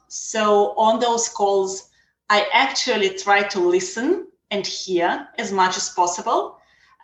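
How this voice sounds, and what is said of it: Noticeable foreign accent. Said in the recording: “As you can hear, I have an accent, so that's kind of unforgettable.”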